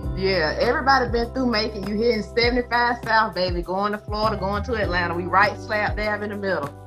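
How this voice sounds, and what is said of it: Southern Georgia accent. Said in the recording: “What's that accent that you have? Everybody's talking about your accent ... I'm from Macon, Georgia”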